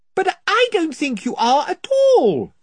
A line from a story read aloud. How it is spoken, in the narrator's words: said Lucy, shouting to make herself heard